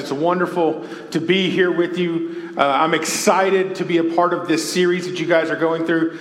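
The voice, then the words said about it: Southern US Texas accent. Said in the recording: “y'all can probably tell from my accent, I am not from the Midwest. I am from the great, far, far land of the Deep South. I was born and raised in Texas.”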